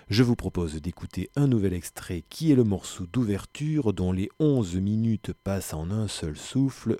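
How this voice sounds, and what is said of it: Noticeable accent in French. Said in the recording (French): “Excusez encore une fois mon accent”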